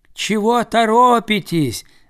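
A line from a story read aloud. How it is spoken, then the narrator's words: Ducks shouting. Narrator (Russian): закричали им кряквы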